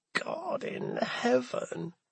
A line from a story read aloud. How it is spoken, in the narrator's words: Plum muttered